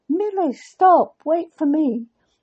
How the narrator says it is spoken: He called out to her

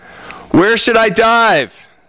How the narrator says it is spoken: shouted Otto

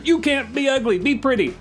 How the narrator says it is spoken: I keep yelling at her

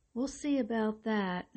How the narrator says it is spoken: he said hesitantly

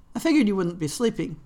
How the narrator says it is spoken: Cataline said

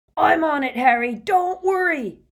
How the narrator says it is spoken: Hagrid yelled

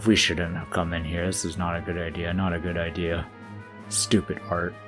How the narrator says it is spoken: Jack also mutters to himself

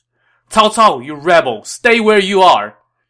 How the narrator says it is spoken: Dong Cheng shouted as he attacked

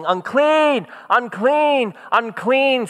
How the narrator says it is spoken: they had to walk along yelling

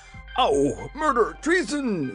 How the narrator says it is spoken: yelled the King, who had been hurled against several of his warriors and was considerably bruised

